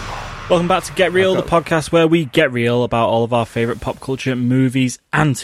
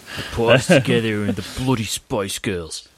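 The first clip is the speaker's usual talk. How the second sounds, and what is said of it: Put-on Australian accent. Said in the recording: “I think that's the best Australian accent you've ever done.”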